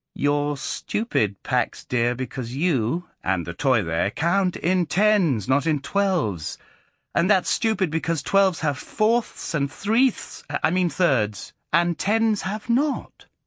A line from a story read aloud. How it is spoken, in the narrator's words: he said slowly and triumphantly